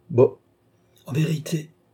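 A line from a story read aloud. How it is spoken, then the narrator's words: Exclaiming. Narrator (French): s'écria Tavernet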